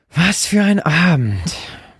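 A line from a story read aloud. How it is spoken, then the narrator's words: Groaning. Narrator (German): fasste sie noch einmal stöhnend zusammen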